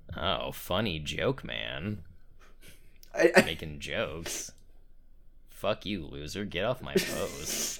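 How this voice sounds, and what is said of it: Imitating Newton's voice. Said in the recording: “do the fucking Newton voice”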